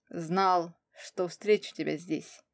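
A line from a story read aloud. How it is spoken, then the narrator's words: Calm explanation. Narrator (Russian): пояснил спокойно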